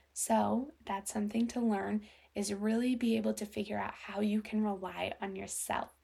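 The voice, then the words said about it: Quiet, monotone speech. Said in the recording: “talking a little bit more monotone and quiet ... my family is sleeping, so that's why I had to talk a little quiet”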